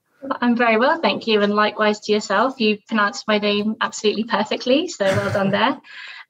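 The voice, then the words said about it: British accent. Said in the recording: “a good British accent”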